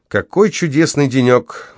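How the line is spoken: Exclaiming. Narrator (Russian): воскликнул Кармоди

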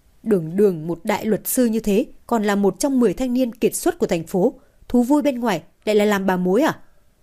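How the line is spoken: Loud laughter. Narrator (Vietnamese): Từ Thời Phong cười lớn

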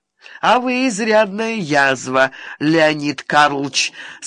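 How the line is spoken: Good-natured with a chuckle. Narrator (Russian): сказал Иванихин беззлобно, хохотнул

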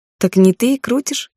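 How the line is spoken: Giggle. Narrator (Russian): хихикнула

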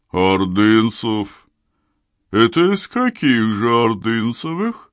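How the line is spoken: Booming deep voice. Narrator (Russian): она пробасила голосом мощным, как пароходная труба

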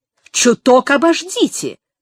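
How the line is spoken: Sharp mocking mimicry. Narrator (Russian): резко передразнил он ее

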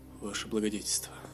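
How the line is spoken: Whisper. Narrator (Russian): прошептал Бовар

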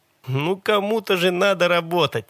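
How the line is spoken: Cheerful. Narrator (Russian): весело сказал Джон

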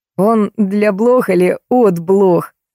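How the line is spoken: Giggling. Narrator (Russian): хихикнул Кирюшка

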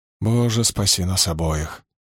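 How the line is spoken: Sigh. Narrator (Russian): вздохнул я

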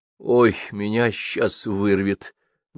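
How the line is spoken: Strained, nauseous. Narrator (Russian): выдавила Лола, уткнувшись в раковину

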